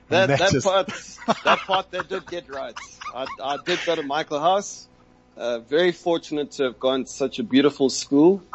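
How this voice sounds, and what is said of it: South African Natal accent, mixed. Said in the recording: “I'm sure you can probably hear a bit of the Natal accent in my voice. I'm actually not sure what accents I have. It's a bit of everything.”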